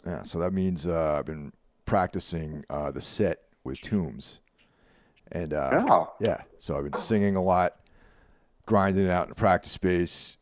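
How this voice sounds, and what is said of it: Slightly hoarse voice. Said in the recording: “my voice is just a little hoarse”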